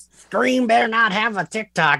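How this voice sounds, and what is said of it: Bad imitation of another person's voice. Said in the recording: “That was a bad Zach accent.”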